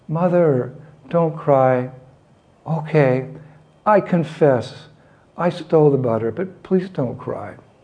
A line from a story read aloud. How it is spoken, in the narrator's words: he pleaded